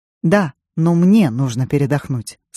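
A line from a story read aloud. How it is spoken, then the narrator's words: Plain. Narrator (Russian): сказал он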